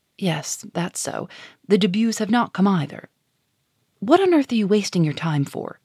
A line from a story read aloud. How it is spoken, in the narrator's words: added sharply, raising her voice